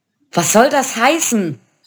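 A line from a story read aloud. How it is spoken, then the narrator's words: Calling out. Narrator (German): rief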